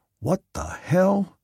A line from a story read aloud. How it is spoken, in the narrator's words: Ward muttered